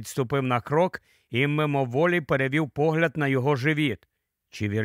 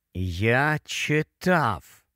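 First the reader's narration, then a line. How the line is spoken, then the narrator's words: Slow, strained speech. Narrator (Ukrainian): повільно заговорив Гаррі, вичавлюючи із себе слова і намагаючись не рухати м'язами живота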